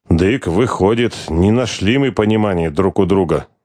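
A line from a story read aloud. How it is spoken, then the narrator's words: Grumbling. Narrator (Russian): Владыка проворчал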